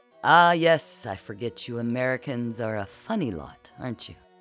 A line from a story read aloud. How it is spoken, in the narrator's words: The man chuckled